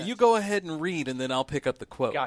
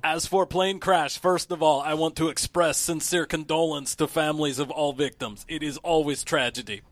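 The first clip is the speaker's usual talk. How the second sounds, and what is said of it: Put-on Russian accent, imitating Putin. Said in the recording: “quotes is where you have to do the accent ... read that part with your accent”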